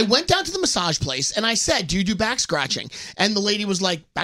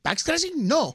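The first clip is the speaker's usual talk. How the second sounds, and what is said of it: Unidentified put-on accent. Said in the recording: “What kind of accent was that? ... I don't know what kind of accent it was”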